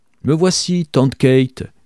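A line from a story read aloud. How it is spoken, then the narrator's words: Suddenly animated shout. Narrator (French): cria Gabriel, pris d'une animation soudaine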